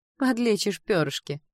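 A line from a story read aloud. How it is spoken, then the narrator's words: Snorting demoness. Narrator (Russian): фыркнула демонитка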